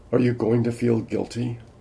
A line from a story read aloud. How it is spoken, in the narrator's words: Her voice was tremulous